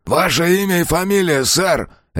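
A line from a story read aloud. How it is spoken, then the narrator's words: Barked. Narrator (Russian): рявкнул второй полицейский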